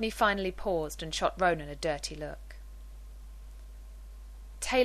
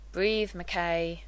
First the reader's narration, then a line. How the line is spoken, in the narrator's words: Ronan grumbled